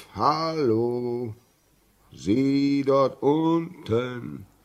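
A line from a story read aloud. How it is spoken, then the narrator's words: Voice calling. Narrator (German): eine Stimme, die rief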